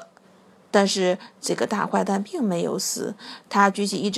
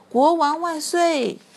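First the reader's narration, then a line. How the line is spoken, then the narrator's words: Triumphant shout. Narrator (Chinese): 艾利奥特杀了这个大坏蛋，他大喊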